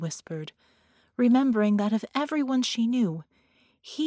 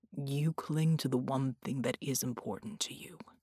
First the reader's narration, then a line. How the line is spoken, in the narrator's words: he murmured